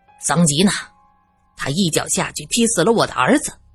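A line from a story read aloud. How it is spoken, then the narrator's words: Angry rebuke. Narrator (Chinese): 苏三怒斥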